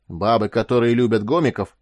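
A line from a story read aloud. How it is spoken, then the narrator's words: Barked. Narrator (Russian): рявкнул Грубиян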